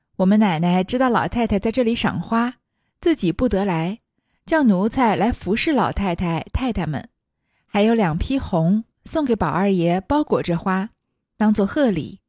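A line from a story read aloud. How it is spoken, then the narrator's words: Cheerful. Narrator (Chinese): 平儿笑嘻嘻地迎上来说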